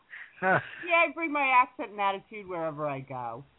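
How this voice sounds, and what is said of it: Long Island accent. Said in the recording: “she's got a Long Island accent.”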